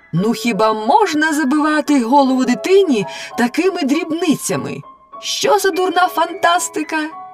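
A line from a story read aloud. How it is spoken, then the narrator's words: Loud shouting. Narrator (Ukrainian): Лялька голосно закричала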